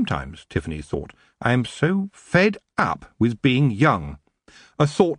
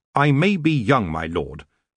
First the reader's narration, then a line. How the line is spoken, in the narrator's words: she said firmly